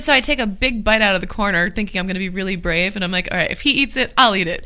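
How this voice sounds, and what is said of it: Usual voice. Nothing is said of it.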